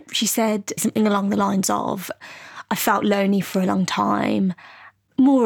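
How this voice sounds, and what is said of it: Usual voice. Nothing is said of it.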